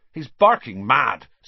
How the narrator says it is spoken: said Seamus Finnegan angrily to Percy

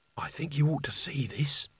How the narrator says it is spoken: she hissed

